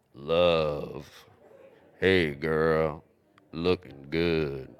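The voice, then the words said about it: Deep male voice. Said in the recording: “He has a really deep voice. Does he have a deep voice? Who's the guy who has the deep voice? Barry White.”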